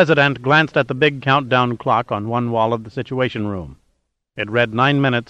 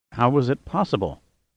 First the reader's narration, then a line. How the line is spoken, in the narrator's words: murmured